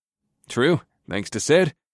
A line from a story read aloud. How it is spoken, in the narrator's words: I chuckled